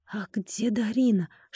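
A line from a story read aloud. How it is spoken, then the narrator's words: Whispered. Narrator (Russian): шепнула она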